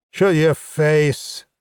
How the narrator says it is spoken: he said, not unkindly

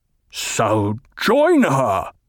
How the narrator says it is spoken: the Baron spat

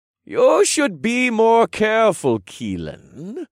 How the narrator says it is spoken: sneered

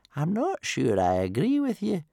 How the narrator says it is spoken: wheezed old Wrinkly, Hiccup's grandfather

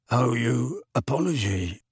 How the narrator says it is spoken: grunted a voice from the middle of the smelly cloud

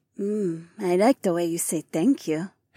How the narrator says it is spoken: Haewon purred

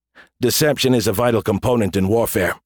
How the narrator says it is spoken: I said quickly

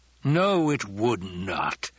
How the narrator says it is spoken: the Baron growled

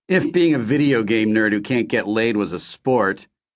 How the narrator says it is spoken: laughed

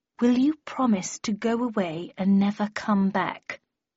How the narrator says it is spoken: asked Howson in a slow and patronizing tone

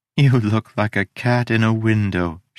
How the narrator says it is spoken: she laughed

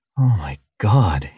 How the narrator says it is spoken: gasped

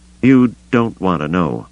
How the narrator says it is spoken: Anne told him grimly

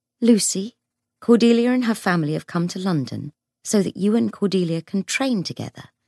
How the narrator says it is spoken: said Tessa in her gentle voice

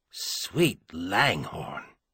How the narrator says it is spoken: Trenaire murmured

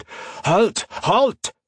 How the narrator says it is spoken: he shouted

